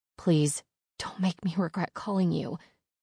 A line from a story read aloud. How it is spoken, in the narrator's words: I whisper, tears falling wildly from my eyes